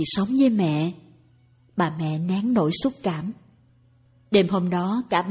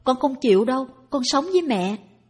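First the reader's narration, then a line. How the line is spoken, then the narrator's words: Child's loud cry. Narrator (Vietnamese): Tèo la lên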